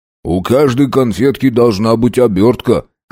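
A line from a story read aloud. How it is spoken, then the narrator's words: Snorting. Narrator (Russian): хмыкнул Арнольд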